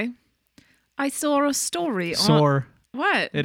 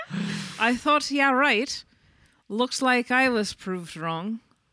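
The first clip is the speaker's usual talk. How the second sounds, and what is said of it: Attempted British accent, slipping Irish. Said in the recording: “you do a British accent for that comment ... oh, I'm Irish. Oops.”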